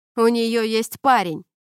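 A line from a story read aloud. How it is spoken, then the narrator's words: Shouted, smiling. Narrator (Russian): крикнул ей вслед Трентон, улыбаясь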